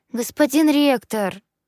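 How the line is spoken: Pleading. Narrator (Russian): взмолилась я

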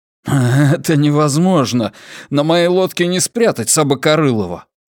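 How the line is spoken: Growling. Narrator (Russian): Тул зарычал

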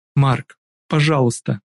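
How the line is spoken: Tearful plea. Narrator (Russian): Сквозь слезы выдает Милли

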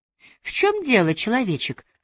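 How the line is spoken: Sighing. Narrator (Russian): вздохнула

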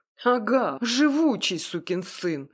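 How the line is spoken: Mage muttering through teeth. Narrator (Russian): процедил маг

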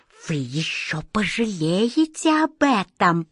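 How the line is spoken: Hiss. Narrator (Russian): прошипел он

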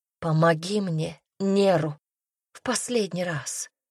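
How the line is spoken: Whisper. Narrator (Russian): шепнула Руми

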